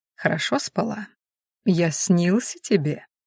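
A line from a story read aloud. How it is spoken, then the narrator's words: Barely audible, slightly embarrassed. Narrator (Russian): едва слышно, самую малость смущенно ответила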